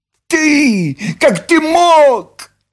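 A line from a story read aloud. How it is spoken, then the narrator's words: Shrill squeal. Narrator (Russian): взвизгнула Нюша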